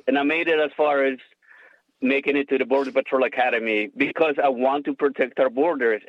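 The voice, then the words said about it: Noticeable foreign accent in English. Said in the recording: “the accent is coming out a little bit more”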